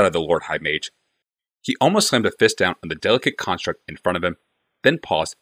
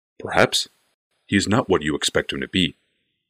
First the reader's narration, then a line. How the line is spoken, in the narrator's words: said Barl calmly